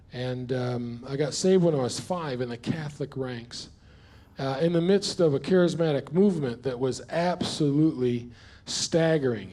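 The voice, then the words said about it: New York accent. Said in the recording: “by the accent, those that haven't met me, I'm not from Perth. I was born and raised in a place called New York”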